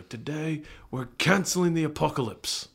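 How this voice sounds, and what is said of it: Imitates another person's voice. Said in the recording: “my Idris Elba impersonation ... Flawless ... Pretty solid ... Nailed it”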